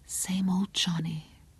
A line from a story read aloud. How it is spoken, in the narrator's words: whispered